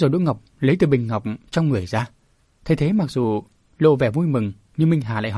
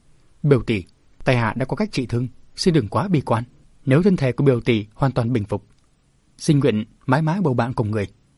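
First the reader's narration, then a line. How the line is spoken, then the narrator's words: Flustered, laughing loudly. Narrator (Vietnamese): Đỗ Ngọc mặt nóng bừng, tim đập dồn dập, bỗng chàng cười lớn nói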